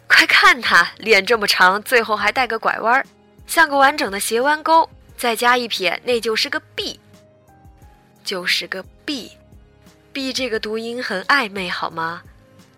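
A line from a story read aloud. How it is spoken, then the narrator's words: Whole crowd shouting. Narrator (Chinese): 全场大喊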